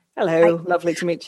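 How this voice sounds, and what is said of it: Fake British accent. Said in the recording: “his fake British accent”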